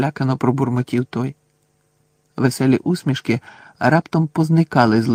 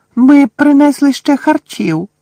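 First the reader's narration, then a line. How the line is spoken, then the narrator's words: Squeaking elf. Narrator (Ukrainian): запищав один ельф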